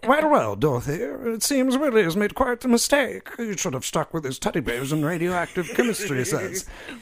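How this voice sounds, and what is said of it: Terrible put-on accent, rushed. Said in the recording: “you rushed through because you were uncomfortable with the accent ... It's a terrible accent.”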